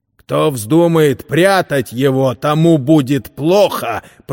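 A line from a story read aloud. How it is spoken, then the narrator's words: Growl. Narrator (Russian): прорычал он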